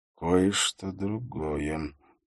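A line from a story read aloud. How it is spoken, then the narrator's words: Quiet mutter to himself. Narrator (Russian): тихо пробормотал он себе под нос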